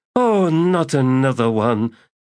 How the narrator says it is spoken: moaned Sordico Quam

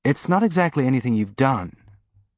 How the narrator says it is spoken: Naomi said

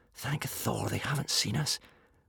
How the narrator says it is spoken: breathed Hiccup to Fishlegs

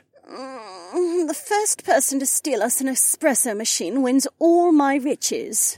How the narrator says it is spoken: Becca groaned

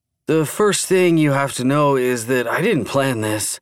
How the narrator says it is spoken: Jason insisted, his voice still weak but no longer broken by deep sobs now that the adrenaline had really kicked in

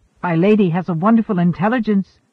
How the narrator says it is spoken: Abruptly he colored, dropped his gaze, and blurted

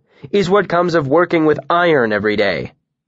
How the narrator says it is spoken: he said firmly to the room in general

